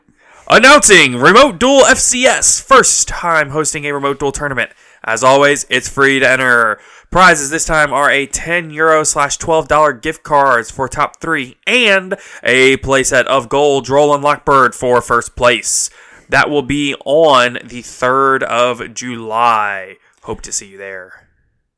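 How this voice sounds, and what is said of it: Radio announcer voice. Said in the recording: “in my best radio announcer voice”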